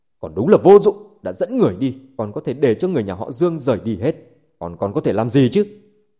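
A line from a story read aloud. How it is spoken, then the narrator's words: Angry. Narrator (Vietnamese): Trần Hưng Hải tức giận nói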